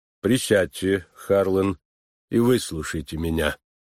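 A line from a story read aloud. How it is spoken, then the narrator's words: Quiet and calm. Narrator (Russian): Тихим и спокойным голосом он произнес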